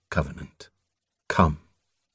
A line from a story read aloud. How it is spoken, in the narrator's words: Morham commanded quietly